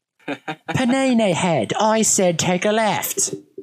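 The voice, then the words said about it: Poor Gordon Ramsay impression. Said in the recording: “Could you imagine Gordon Ramsay directing your driving as a GPS voice? ... That's a terrible impression”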